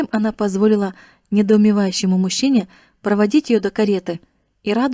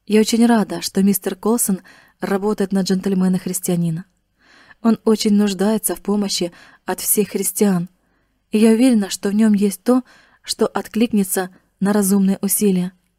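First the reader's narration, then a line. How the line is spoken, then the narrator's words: Gentle, affectionate. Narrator (Russian): она ласково сказала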